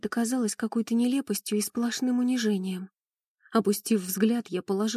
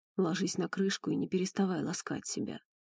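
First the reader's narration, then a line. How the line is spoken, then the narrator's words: Hoarse. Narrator (Russian): хрипло проговорил барон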